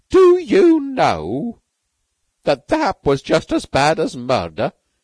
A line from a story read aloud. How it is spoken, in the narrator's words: he said in a grating voice